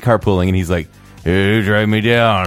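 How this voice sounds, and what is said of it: Lazy, tired imitation of another person. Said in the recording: “your Morgan Hayes impersonation? ... It's a really lazy Morgan Hayes impression. He was really tired that night.”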